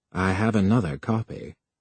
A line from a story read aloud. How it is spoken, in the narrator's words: Finge said calmly